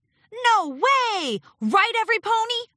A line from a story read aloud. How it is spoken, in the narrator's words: shouted Noteworthy